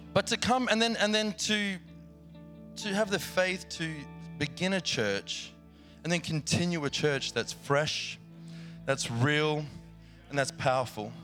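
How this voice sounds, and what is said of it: Australian accent. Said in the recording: “come from the land down under. I'm very familiar with that place, as you might hear in my accent”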